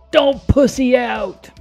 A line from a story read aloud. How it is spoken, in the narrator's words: Gingerton, when he gets pushed to his limit, he yells out